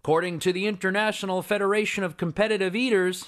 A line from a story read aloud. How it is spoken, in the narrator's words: said Bill